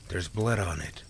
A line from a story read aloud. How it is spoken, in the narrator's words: Sam said in a shaky voice